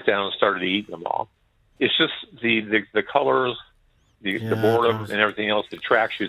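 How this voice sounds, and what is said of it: American accent. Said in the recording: “some people might be confused with your accent. You were talking about the States, for example. You're not our Canada ... I'm from Las Vegas originally ... I thought you sounded like the Milky Bar kid”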